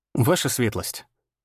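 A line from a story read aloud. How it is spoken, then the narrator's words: Calm. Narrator (Russian): сказал спокойно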